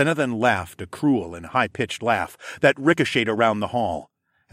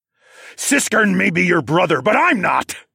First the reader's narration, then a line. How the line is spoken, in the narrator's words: I growled